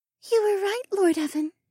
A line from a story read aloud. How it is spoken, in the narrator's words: Mariah said in a sad voice